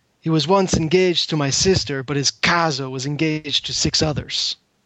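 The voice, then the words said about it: Poor attempt at Italian accent. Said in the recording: “probably the worst accent I've ever done ... This is aiming for an Italian accent. And I'm just going to say that because I can't do the accent.”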